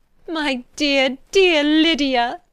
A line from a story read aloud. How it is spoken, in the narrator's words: she cried